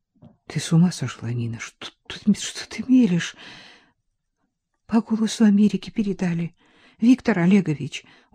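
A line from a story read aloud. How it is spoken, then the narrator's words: Tearful voice. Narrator (Russian): уже плачущим голосом проговорила Нина Константиновна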